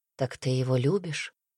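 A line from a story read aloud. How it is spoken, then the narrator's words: Quiet question. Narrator (Russian): тихо спросил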